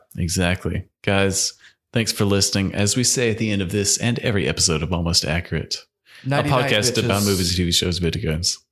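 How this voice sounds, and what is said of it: Put-on radio announcer voice. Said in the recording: “You came out with like a like fine print right there... I'm trying out for my radio voice.”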